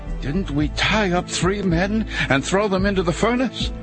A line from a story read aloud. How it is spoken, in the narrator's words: Nebuchadnezzar jumped up in amazement and exclaimed to his advisers